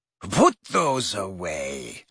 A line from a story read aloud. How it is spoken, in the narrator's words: she said coldly to Harry and Ron